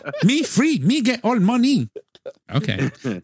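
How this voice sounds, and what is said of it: A bad put-on foreign accent. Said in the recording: “That was a horrible accent.”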